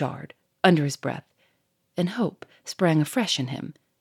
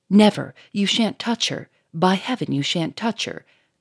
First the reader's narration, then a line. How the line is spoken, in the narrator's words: cried Lupin, frantically